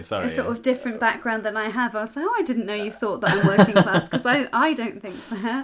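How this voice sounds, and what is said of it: Middle-class English RP accent. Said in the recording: “your accent is closest to RP, because you're from England ... you sound middle class in English ... you speak RP”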